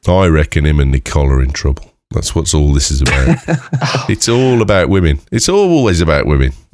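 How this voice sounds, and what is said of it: Imitates another person's voice. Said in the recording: “I quite like your Lewis impression. ... if you close your eyes, it could have been him.”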